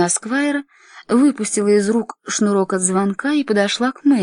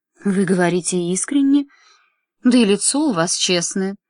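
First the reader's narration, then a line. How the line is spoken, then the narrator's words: Tender woman. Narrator (Russian): ласково сказала она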